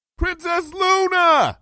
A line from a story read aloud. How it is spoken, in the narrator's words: I called out